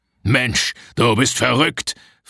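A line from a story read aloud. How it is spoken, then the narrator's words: Hissing. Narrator (German): fauchte er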